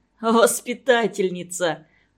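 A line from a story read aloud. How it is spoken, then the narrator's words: Laughing loudly. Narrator (Russian): хохотал Мишка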